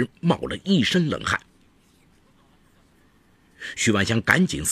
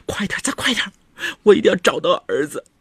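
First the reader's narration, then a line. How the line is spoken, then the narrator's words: Crying, urgent. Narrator (Chinese): 张敏不停地哭着敦促丈夫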